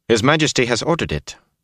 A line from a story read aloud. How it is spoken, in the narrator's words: Caldwin said sharply